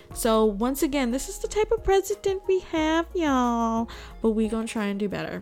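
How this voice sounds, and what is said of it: Valley Girl accent. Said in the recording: “that Valley Girl accent”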